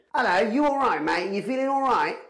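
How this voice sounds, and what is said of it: Put-on British accent. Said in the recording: “a British accent”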